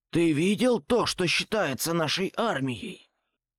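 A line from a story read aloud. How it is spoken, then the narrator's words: Growling. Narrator (Russian): прорычал Копиш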